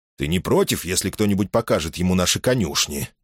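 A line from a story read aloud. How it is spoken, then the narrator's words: Quick question. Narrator (Russian): быстро спросил Тубрук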